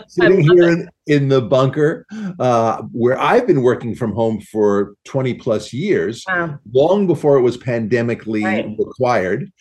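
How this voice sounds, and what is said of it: Long Island New York accent. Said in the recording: “Hard to with that accent... Long Island”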